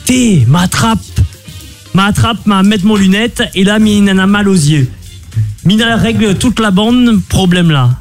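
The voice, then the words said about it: Heavy put-on accent. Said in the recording (French): “Ton accent est chargé”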